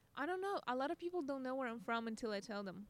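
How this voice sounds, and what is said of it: Russian accent. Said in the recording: “do you think people fetishize your accent a lot? ... You think it's pretty obvious that you're Russian? ... I think it's pretty damn obvious.”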